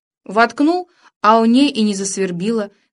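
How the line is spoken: Shouting. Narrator (Russian): кричал

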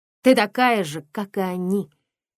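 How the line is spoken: Louder, angry voice. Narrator (Russian): Ее голос зазвучал громче, сердито

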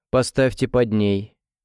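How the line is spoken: Cold command. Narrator (Russian): холодно приказала она

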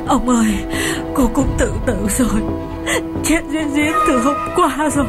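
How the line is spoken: Sobbing. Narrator (Vietnamese): chị bếp sụt sùi kể

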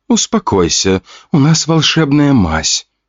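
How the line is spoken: Calm gentle voice. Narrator (Russian): спокойным ласковым голосом говорила апельсинки

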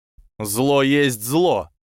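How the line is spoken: Angry growl. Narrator (Russian): прорычал тот, кто назвал Невилла предателем

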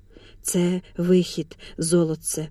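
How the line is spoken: Whispering. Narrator (Ukrainian): шепотів Хотинський

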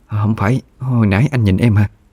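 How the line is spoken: Stammering female voice. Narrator (Vietnamese): Cô lắp bắp nói

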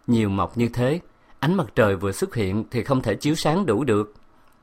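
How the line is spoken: Smiling question. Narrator (Vietnamese): Tôi mỉm cười hỏi

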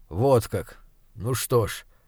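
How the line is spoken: Indifferent mutter. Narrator (Russian): равнодушно бормочет он

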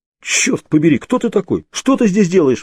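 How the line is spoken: Frightened exclamation. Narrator (Russian): воскликнул Крис, испуганно

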